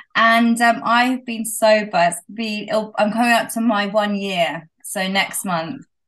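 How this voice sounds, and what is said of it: British accent. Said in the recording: “I live in the UK, which you can probably tell by my accent.”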